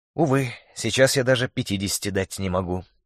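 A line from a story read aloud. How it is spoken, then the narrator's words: Sighing reply. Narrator (Russian): вздохнул в ответ Шурик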